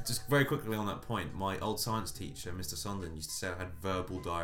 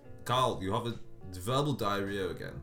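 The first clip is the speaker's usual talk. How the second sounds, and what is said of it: Put-on thick German accent. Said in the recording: “He had a thick German accent ... Is that your German accent? ... That was good”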